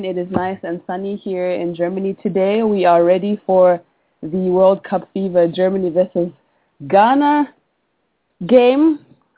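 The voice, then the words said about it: Slightly congested voice from a cold. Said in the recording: “I have a little bit of a cold ... You can hear just a little bit of a difference in my voice.”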